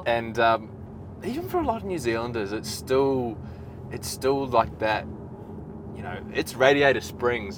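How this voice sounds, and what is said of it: New Zealand accent. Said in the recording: “I don't know if people can tell from my accent, but I'm obviously Kiwi. ... From New Zealand.”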